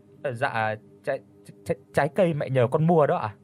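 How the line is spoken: Stammering. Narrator (Vietnamese): Hà My lắp bắp

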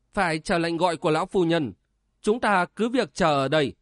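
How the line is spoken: Stern reply. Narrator (Vietnamese): Xuân Hồng nghiêm giọng đáp

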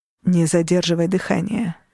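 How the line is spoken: Quiet. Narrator (Russian): сказал тихо

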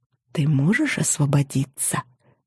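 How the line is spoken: Whisper. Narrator (Russian): прошептала я

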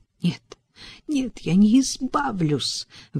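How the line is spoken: Desperate exclamation. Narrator (Russian): в отчаянии воскликнула

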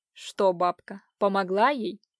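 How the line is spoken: Sinister, through teeth. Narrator (Russian): процедил зловещим голосом Иван

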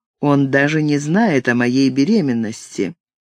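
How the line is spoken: Dull, flat voice. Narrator (Russian): Тусклым голосом она произнесла

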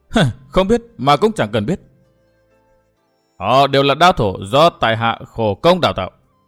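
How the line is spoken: Scoffing. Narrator (Vietnamese): Trạm tình nữ cười khẩy

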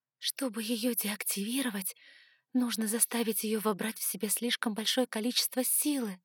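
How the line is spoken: Whisper. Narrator (Russian): прошептала я

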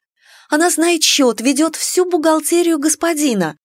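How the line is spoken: Pleading exclamation. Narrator (Russian): воскликнула я в надежде уговорить нового господина не разлучать нас с мамой

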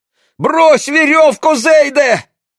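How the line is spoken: Shouting. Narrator (Russian): закричал деревенский Папиш

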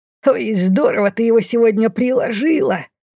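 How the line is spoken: Gloating giggle. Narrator (Russian): Злорадно хихикнула Мина

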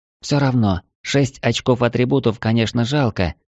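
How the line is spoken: Sighing. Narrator (Russian): вздохнула она

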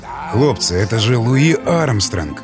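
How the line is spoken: Hushed careful whisper. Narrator (Russian): прошептал он, боясь нарушить это пение

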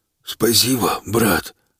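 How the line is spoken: Hoarse, choking. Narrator (Russian): прохрипел Каленый, будто задыхаясь

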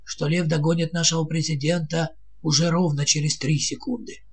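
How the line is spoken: Heavy sigh. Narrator (Russian): тяжело вздохнул министр финансов

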